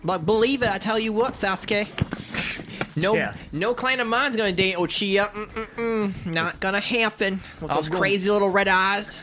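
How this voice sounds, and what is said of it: Naruto in a Southern accent. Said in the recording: “dub Naruto in a southern accent”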